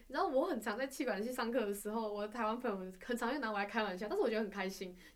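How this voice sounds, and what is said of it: Malaysian Mandarin accent. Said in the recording (Chinese): “马来西亚人讲话有个口音在，所以可能大家听到会觉得我们口音怪怪的”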